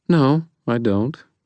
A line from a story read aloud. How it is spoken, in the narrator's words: she said calmly